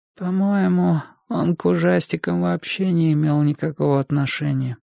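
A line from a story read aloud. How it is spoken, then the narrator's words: Weak, grating little voice. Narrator (Russian): продолжал Энди своим слабым, раздражающим голоском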